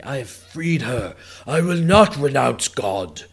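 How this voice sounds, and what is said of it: Impression of Eddie Redmayne. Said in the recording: “my impression of Eddie Redmayne and his amazing acting abilities”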